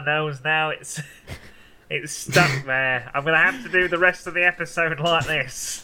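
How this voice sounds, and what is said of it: Nasal, nose-pinched mock southern accent. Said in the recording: “pinching your fingers on your nose makes you more southern ... this strange southern accent”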